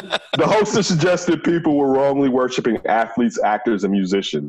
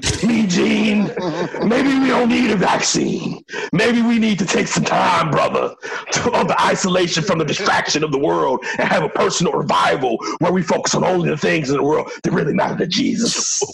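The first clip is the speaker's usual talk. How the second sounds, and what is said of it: Hulk Hogan impression. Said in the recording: “you got to do the Hulk Hogan voice.”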